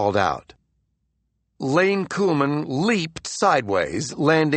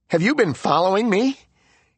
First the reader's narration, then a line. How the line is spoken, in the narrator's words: he asked shakily